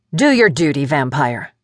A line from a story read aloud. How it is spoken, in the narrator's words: snapped